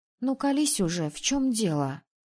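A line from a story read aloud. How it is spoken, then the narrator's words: Tired whisper. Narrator (Russian): устало прошептала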